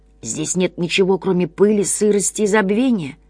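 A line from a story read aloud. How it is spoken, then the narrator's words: Indistinct mumble. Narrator (Russian): невнятно пробормотало существо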